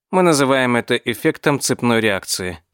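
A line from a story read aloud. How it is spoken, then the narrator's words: Calm explanation. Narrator (Russian): спокойно пояснил Гелий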